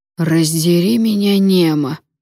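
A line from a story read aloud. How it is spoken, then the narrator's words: Growling. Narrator (Russian): прорычал сэр Радомир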